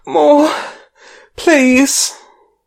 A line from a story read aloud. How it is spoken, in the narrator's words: gasp out